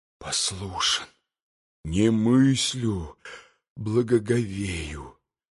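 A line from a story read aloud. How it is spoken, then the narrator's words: Muttering. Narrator (Russian): бормотал Митя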